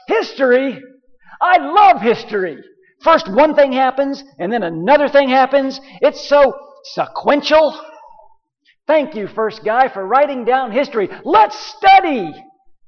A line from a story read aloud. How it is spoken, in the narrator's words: a girl jumps up, and she shouts